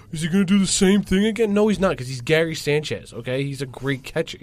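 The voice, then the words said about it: Impersonating a Yankee fan. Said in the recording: “your second Yankee fan impersonation”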